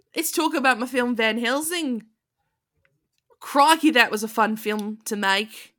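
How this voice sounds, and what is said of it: Australian accent Hugh Jackman impression. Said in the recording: “that's my Australian accent ... That's exactly what he sounds like ... Hugh Jackman”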